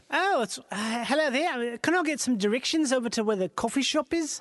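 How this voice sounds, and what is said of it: Put-on New Zealand accent. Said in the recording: “See, I'll be New Zealand. ... Where are you from? That's such an interesting accent.”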